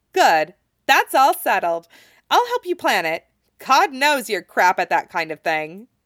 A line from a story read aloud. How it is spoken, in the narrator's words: Winry says cheerfully